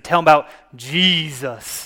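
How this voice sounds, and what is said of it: Thick Southern accent. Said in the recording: “thick Southern accent”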